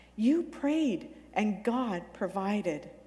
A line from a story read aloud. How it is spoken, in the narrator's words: Hannah exclaimed to Jessica